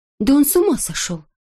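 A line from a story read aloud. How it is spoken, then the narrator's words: Whispered. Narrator (Russian): прошептала одна из медсестер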